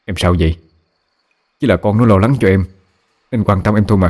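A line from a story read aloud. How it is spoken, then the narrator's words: Irritated scolding. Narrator (Vietnamese): Bố cáu lên quát mẹ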